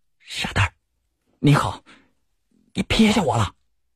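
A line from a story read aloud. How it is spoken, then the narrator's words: Glad, low voice. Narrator (Chinese): 他脸上有喜色，低声说道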